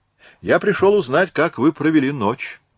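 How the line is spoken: Cheerful declaration. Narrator (Russian): заявил он весело

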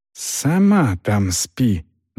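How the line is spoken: Very quiet hiss. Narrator (Russian): зашипела Агнес тихо-тихо

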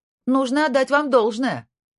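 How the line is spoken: Shouted after him. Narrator (Russian): крикнула она ему вслед

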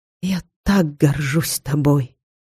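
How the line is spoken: Whisper. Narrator (Russian): она прошептала

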